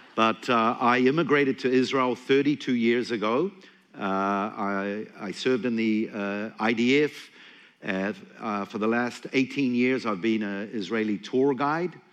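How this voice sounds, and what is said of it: New Zealand accent. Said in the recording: “originally from New Zealand. You can pick up that I have an accent”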